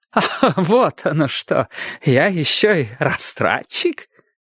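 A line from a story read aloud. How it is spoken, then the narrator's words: Fake laugh. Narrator (Russian): притворно хохотнул Бристоу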